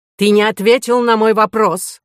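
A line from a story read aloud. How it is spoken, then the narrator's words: Shouted. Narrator (Russian): закричал Фол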